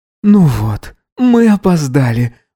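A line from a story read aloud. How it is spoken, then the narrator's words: Sigh, suppressing giggles. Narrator (Russian): вздохнул Гидеон, стараясь не хихикать, как подросток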